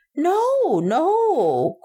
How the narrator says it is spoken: cried Mr

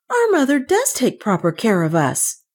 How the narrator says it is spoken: cried Kay

